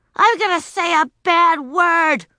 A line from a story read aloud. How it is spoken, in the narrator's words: she shouted